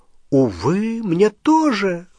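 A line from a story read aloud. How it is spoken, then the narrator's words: Exclaiming. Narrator (Russian): воскликнул Треверс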